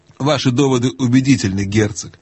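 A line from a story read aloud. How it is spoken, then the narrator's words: Plain. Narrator (Russian): ответил Каспиан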